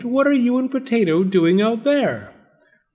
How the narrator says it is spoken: exclaimed

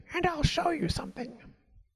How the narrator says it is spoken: crow whispered in his ear

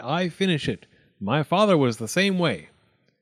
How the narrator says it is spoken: said the dentist firmly

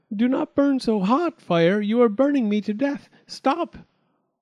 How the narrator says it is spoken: Little Half-Chick cried out

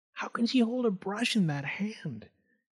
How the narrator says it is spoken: People cooed

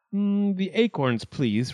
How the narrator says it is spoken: replied Ichiro

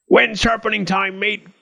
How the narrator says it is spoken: cried the goblin

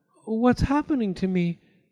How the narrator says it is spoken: she cried, as suddenly she felt very weak and tired

